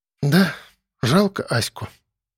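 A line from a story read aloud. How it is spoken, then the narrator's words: Sigh. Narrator (Russian): вздохнула Алена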